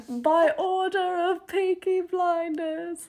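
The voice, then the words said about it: Poor put-on British accent. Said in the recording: “That was a horrible British accent.”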